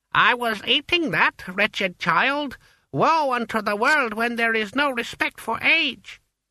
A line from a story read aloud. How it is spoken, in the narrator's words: the ancestor grumbled